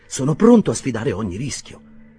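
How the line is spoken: Fervent exclamation. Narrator (Italian): esclamò fervidamente

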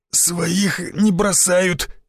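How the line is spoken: Forced out with effort. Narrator (Russian): с трудом выдавил из себя Шишаков

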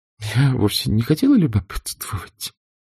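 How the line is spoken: Muffled. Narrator (Russian): глухо сказала она

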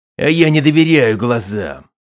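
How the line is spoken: Growled. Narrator (Russian): прорычал Бацами

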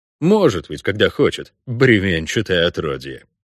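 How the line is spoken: Grumbling, familiar disgusting tone. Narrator (Russian): проворчал я знакомым до отвращения тоном

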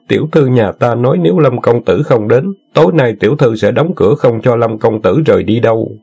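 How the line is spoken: Giggling. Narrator (Vietnamese): Tiểu nha hoàng đó cười khúc khích

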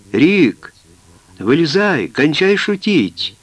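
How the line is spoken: Shouted. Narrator (Russian): наконец закричал Боб

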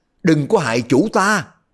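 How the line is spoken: Four voices shouting in unison. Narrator (Vietnamese): Đặng Bách Xuyên, Công Giả Càng, Bao Bất Đồng, Phong Ba Ác, bốn người đồng thanh la lên

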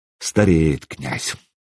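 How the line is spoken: Muttered in Scandinavian. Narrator (Russian): пробормотал по-скандинавски

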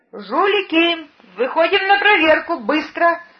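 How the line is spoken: Shouting caretaker. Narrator (Russian): Прокричал завхоз

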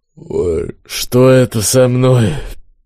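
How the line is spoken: Groaning, puzzled, sleepy. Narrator (Russian): Мужчина застонал, недоуменно сонно произнес

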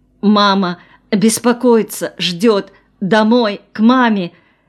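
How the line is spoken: Sobbing. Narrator (Russian): снова разрыдалась

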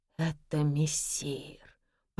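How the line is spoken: Hoarse rasp. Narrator (Russian): прохрипел гардеробщик

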